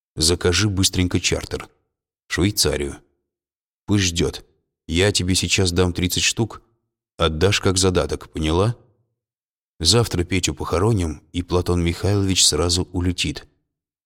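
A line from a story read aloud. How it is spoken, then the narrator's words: Quiet but clear. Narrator (Russian): сказал тихо, но внятно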